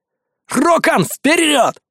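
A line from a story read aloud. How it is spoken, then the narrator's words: Shouting again. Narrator (Russian): вновь заорал я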